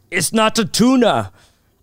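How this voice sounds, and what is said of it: Imitates another person's voice. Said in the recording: “I also do impressions. ... This is my impression of Arnold Schwarzenegger getting the wrong sandwich.”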